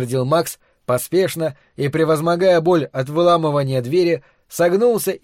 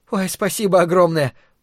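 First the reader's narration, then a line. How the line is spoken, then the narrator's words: Thin, squeaky voice. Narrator (Russian): пропищала девушка тоненьким голоском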